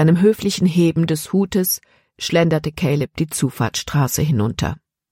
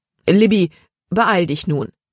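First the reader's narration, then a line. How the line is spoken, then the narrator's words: Plain. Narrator (German): sagte Herr Weaver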